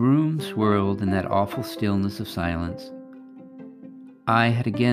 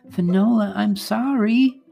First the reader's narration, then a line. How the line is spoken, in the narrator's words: I pleaded